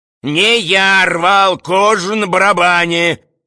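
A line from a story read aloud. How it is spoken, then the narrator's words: Shouting. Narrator (Russian): кричал Близнецов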